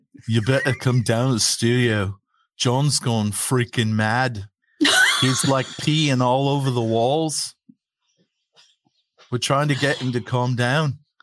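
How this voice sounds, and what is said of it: Put-on Scouse accent. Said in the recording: “Can you do a Scouse accent?”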